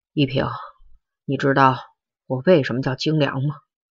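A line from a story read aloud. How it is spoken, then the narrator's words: Trembling, guilty voice. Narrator (Chinese): 他的声音极不自然，语音发颤，听上去有一种愧疚感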